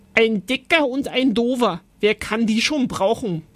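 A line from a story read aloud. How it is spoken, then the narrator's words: Roaring. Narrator (German): brüllte Oskar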